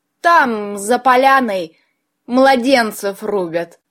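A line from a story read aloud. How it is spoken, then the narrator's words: Roaring laughter. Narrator (Russian): С гомерическим хохотом признался Васька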